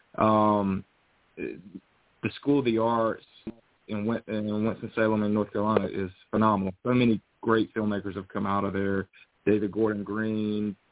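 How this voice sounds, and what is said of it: North Carolina Southern US accent. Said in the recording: “I'm from North Carolina. You can probably tell from the accent”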